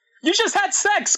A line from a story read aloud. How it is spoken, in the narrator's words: screamed Tails